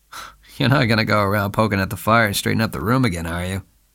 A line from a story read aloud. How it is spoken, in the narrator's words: he asked lazily